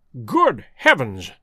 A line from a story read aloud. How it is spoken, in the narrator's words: cried Holmes in amazement